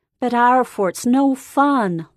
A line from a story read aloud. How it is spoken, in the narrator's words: Lori wailed